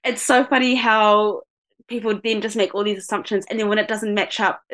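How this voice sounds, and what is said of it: New Zealand accent. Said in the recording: “my voice and my accent, because I do sound pretty Kiwi”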